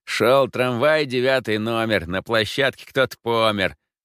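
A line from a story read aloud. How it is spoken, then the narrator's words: Young man singing nasally. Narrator (Russian): гнусаво пропел парень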